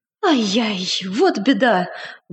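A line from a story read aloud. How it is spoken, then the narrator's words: Exclaimed. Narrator (Russian): воскликнул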